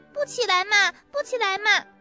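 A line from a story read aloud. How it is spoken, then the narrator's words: Whiny child's protest. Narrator (Chinese): 丽丽嘴里直嚷嚷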